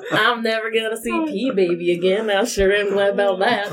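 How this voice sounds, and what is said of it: Put-on folksy accent. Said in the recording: “this accent's gonna persist through the night for you”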